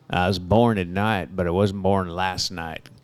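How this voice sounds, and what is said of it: Put-on Southern accent. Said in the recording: “He isn't Southern either. I don't know why he did that voice.”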